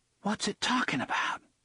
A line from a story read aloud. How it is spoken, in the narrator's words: hissed